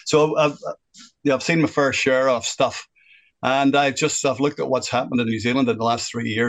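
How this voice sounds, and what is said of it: Northern Irish accent. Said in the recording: “You can tell by my accent, I'm not originally from New Zealand ... I am originally from Northern Ireland.”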